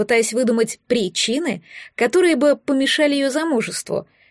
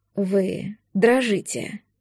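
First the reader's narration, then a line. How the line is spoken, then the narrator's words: Tender whisper. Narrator (Russian): прошептал он, в бирюзовых глазах светились нежность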